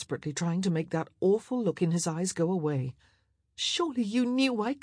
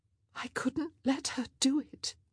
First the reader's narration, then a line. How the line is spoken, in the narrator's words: she whispered